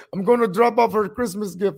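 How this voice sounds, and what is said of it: Put-on Hungarian accent. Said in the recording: “he's a Hungarian dude, said he got the accent.”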